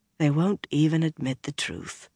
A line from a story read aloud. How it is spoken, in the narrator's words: Swan said softly